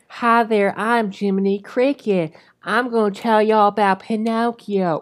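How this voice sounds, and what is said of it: Put-on Southern American accent. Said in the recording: “why does Jiminy Cricket have a southern accent? He's like,”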